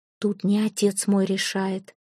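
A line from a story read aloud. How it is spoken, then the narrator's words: Whisper. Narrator (Russian): прошептала Яра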